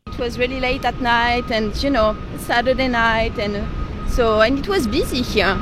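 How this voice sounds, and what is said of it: French-accented English. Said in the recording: “has an absolutely adorable French accent.”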